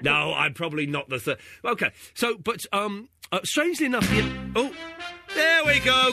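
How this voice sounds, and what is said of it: English accent. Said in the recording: “I voted for your accent ... I can't tell the difference with the English accent”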